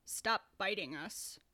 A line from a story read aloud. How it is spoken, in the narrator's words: he replied flatly